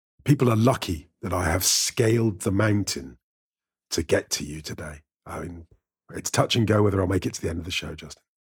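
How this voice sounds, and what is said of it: Gravelly, hoarse voice. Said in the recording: “my gravelly voiced friend ... I've got a cold.”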